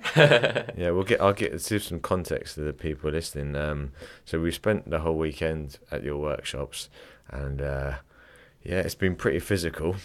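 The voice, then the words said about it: Croaky, hoarse voice. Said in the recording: “My voice is really croaky. It's normally not this croaky.”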